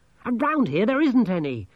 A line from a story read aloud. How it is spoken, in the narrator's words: Angelo snapped